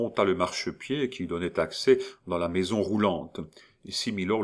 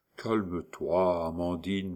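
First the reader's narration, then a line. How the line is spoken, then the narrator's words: Soft whisper in ear. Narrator (French): murmurait le doux échalot à l'oreille de sa compagne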